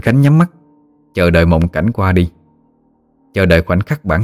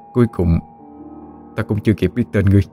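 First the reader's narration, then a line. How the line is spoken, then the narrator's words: Soft regretful sigh. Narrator (Vietnamese): Minh Khánh khẽ thở dài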